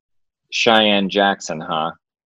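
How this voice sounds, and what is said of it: Imitates another person's voice. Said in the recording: “that's a good Michael Mayer impersonation.”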